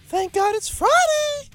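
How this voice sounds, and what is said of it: High falsetto voice. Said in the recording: “How is that voice? ... That was like his falsetto. ... falsetto.”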